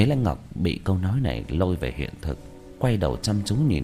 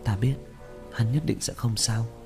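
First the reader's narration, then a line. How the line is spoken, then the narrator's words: Relieved sighing mutter. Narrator (Vietnamese): Nhớ Lễ Ngọc thở dài, vẻ mặt rõ ràng buông lỏng, lẩm bẩm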